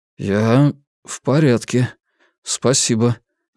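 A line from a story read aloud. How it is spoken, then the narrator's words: Uncertain reply. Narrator (Russian): неуверенно ответил Вивьен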